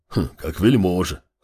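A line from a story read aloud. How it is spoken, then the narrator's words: Grunting older man. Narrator (Russian): хмыкнул старший северянин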